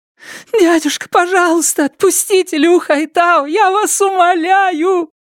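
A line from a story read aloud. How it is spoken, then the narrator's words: Loud sobbing. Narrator (Russian): Лю Хэйян громко рыдала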